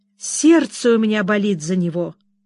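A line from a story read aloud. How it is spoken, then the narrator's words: Tearful exclamation. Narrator (Russian): со слезами воскликнула Кэдди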